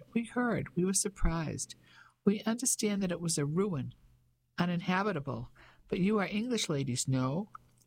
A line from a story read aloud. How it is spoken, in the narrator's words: His voice was light and quite high